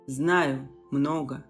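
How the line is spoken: Cold. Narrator (Russian): холодно ответил Аадрион

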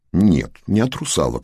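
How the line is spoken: Matter-of-fact scoff. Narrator (Russian): хмыкнул и добавил, как само собой разумеющееся

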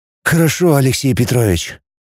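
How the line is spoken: Sighing, forced joke. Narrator (Russian): вздохнул Роман и вымученно пошутил

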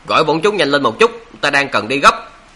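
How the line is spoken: Impatient shout. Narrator (Vietnamese): Đá Nhị Cát nóng nảy quát

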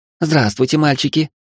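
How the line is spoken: Cheerful exclamation. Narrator (Russian): весело воскликнула она

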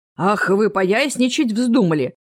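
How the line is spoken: Roaring. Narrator (Russian): взревел Рэп

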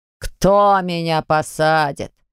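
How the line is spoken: Father's snort. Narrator (Russian): хмыкнул отец

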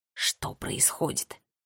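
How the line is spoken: Insistent whisper. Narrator (Russian): Настойчиво прошептал он сестре на ухо

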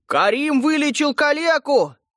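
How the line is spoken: Sudden shout. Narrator (Russian): вдруг закричал толстый Пит

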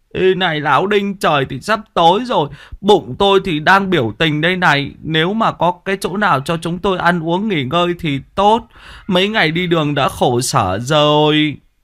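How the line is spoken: Hungry whiny whimper. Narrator (Vietnamese): Thằng Tí bây giờ dạ dày đã dính vào da bụng, mếu máo

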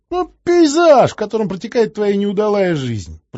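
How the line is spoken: Laughing. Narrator (Russian): просмеялся Чума

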